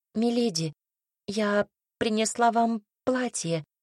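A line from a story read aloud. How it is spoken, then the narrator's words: Timid bleating. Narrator (Russian): робко проблеяла она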